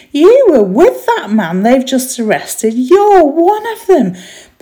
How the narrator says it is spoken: one of the servant girls said loudly

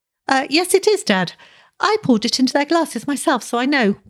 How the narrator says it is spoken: piped a thin voice

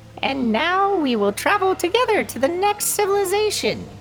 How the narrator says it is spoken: exclaimed Wei

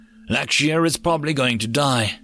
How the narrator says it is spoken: Katash responded grimly

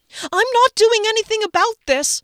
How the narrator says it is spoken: I screamed after him

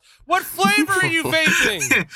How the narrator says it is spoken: One person in the audience just shouts

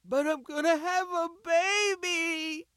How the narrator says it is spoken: She sobbed it, blubbered it

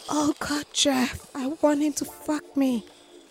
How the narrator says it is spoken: blurting out

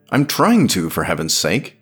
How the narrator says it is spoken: she barked

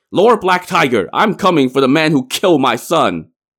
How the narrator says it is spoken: he charged out, shouting

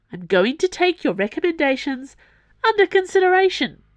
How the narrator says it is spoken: Dana said loudly

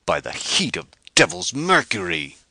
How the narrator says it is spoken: he roared

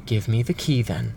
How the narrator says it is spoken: said the other, calmly

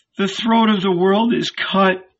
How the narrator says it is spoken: whined Lazarus, tears streaming from his eyes

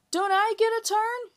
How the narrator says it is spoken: shouted Jamie

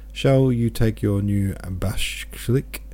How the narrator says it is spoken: she asked again

